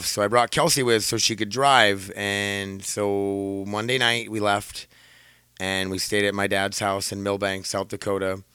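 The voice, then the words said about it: Scratchy voice. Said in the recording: “my voice is already scratchy”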